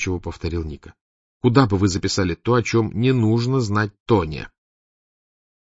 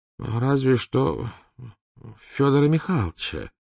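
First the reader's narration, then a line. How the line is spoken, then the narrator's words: Uncertain suggestion. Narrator (Russian): неуверенно предположил Морозов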